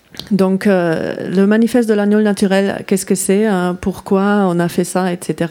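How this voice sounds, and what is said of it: Slight non-native accent in French. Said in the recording (French): “mon petit accent ... parce que je ne suis pas française à la base”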